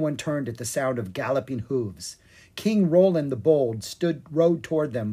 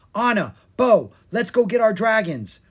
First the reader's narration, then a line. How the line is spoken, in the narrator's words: cried Rory, her green eyes shining